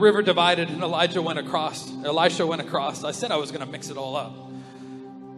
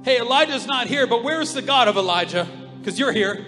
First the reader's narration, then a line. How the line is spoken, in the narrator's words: He cried out